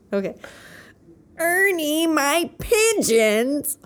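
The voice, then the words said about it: Impression of Bert from Sesame Street. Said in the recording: “Is that Bert? ... Ernie and Bert ... do that voice”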